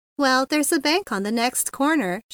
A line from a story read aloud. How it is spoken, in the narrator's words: she said